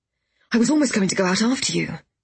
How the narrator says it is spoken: Gideon added

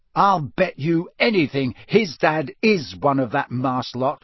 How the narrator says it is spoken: said Ron hotly

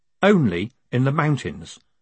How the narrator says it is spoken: said Moist calmly

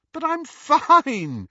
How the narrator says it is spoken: said Lily, still giggling

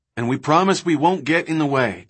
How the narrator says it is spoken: Kelly said

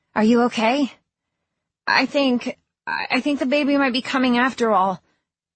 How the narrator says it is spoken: she gasped out

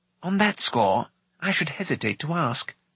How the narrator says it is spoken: Fluda murmured with a grin

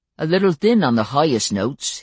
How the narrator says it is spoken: he said

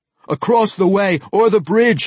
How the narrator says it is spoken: he shouted at Brunner

